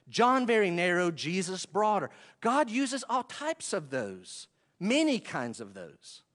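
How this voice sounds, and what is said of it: Western North Carolina accent. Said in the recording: “my accent, my Western North Carolina accent”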